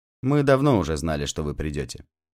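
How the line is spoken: Calm. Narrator (Russian): спокойно сказал он

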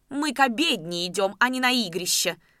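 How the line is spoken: Heated shout, elderly woman. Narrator (Russian): запальчиво крикнула пожилая женщина

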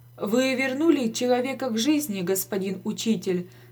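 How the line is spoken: Plain. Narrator (Russian): сказал доктор

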